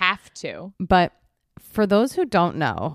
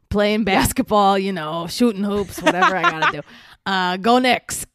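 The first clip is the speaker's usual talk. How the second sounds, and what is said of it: Imitates a TV character's voice. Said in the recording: “I do an impression of Steve, David Eigenberg on Sex in the City ... this is really a one note impression”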